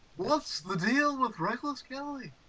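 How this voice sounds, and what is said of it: Poor imitation of another person's voice. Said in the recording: “That was an awful impression.”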